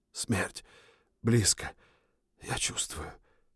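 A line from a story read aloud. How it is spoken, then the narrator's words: Whispered. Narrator (Russian): прошептал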